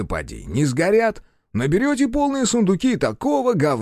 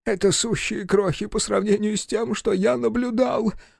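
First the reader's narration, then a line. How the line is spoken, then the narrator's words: Sobbing. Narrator (Russian): всхлипнул профессор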